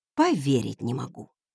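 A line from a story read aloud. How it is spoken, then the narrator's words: Mutter. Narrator (Russian): пробормотала я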